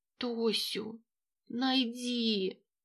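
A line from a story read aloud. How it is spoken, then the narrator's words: Weak muffled old voice. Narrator (Russian): Голос бабульки ослаб, глухо рвущиеся из груди престарелой женщины слова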